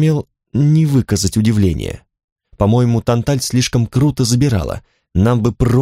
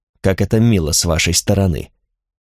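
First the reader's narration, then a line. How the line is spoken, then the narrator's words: Muttering. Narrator (Russian): пробормотал Ларис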